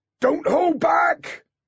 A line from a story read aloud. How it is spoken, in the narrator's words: shouted into the troll's ear